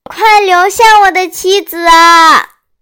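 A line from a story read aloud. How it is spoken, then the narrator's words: Shouting while running. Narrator (Chinese): 牛郎边跑边叫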